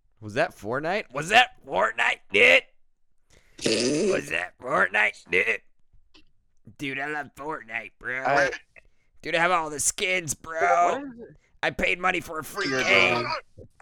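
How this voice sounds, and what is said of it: Imitates another person's voice. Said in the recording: “What is this voice you're doing right now? ... my Ethan Klein impression.”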